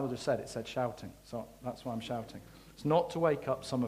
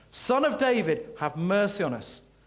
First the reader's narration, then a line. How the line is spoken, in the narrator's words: Shouting